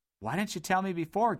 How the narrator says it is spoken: gasped Dodd

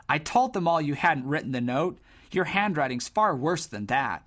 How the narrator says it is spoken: One Rawling, a tidy, sharp-dressed boy, exclaimed

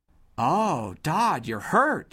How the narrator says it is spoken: exclaimed

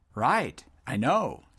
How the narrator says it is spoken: said Juke cheerfully

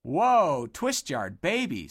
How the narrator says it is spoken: said Boot in an excited voice

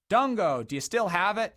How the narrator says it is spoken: he bellowed anxiously

